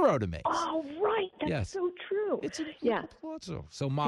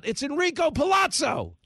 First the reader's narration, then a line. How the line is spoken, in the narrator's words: He's the guy who yells out